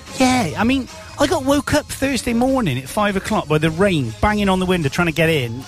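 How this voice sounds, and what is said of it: West Country farmer accent. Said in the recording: “we are down in the West Country. You probably tell by our farmer accent.”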